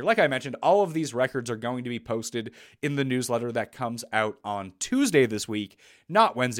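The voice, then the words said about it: Raspy voice from illness. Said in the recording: “I apologize for my voice, by the way. I've been sick the last 2 days ... the voice has been a bit raspy”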